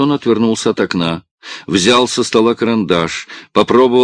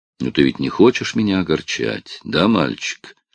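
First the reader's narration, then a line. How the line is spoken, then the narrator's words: Sad, smiling. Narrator (Russian): Мистер Ди печально улыбнулся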